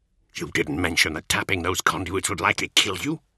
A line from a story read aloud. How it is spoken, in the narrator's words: he growled